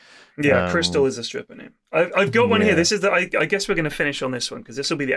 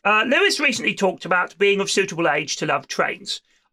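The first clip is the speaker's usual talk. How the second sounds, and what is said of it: British railway nerd voice. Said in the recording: “read this in your best British railway nerd voice”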